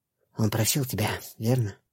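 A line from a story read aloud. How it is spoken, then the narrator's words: Whisper with faint smile. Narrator (Russian): прошептала она, и ее губы тронула слабая улыбка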